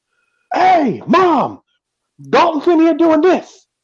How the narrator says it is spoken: by screaming

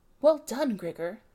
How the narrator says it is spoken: they should have cried

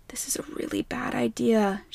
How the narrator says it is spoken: muttered

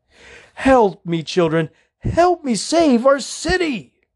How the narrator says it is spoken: Gorman cried

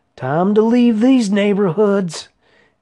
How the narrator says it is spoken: he yelled

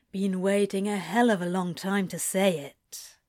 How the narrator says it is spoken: Crowley says gruffly

